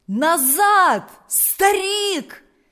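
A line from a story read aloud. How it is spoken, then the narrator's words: Villagers shouting. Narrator (Russian): закричали селяне позади него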